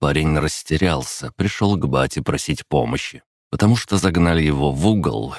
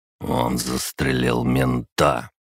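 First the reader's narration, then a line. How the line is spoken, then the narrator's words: Hoarse. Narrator (Russian): хрипло сказал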